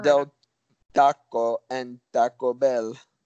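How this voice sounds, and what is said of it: Put-on Spanish-style accent. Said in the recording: “Oh, great accent. Wow. So culturally appropriate.”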